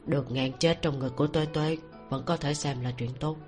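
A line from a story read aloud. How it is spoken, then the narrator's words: Soft laughing. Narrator (Vietnamese): Hắn mới khẽ cười nói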